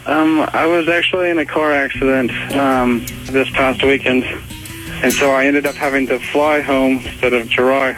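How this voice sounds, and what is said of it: Australian accent. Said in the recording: “you have a delightful accent ... I'm actually from Melbourne, Australia.”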